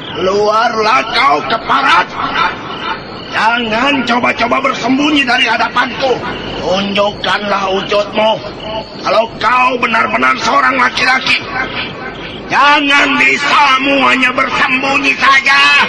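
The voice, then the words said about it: Powerful, forceful shouting. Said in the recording (Indonesian): “teriakan orang itu sangat luar biasa sekali. Seolah-olah teriakan itu diisi oleh tenaga dalam yang kuat”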